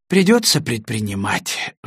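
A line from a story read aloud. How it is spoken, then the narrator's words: Sighing. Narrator (Russian): вздохнул Коротков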